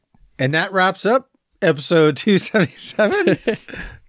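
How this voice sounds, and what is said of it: Loud announcer voice. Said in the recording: “my announcer voice ... It's much louder ... It's much, much louder”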